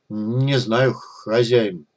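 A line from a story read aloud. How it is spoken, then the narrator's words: Mumbled. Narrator (Russian): промямлил Гриша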